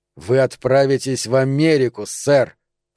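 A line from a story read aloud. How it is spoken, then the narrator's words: Hissed. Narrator (Russian): прошипел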